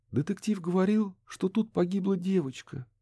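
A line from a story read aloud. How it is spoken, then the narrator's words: Sad. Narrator (Russian): печально произнесла она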